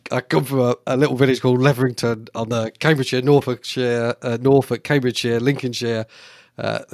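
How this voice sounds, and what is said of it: Broad rural East Anglian English accent. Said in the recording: “I have a, a reasonably broad accent ... when I get excited and passionate, uh, that uh, accent becomes accentuated, and I lose my Queen's Queen's English”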